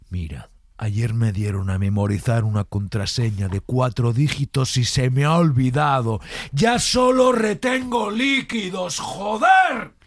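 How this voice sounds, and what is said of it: Shifts from whisper to angry shout. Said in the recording (Spanish): “la transición del bajo al, al alto, del susurrado ... al enfadado”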